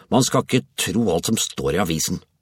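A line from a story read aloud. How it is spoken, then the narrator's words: Muttered. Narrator (Norwegian): mumlet han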